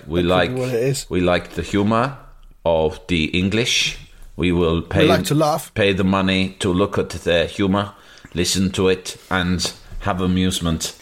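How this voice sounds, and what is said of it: Put-on German accent. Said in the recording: “I'm doing them as German accent. I don't know what a Norwegian sounds like.”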